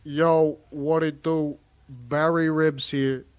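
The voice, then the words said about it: Imitates another person's voice. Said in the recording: “my Barry Ribs impression”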